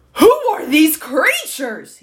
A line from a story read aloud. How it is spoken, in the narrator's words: he bellowed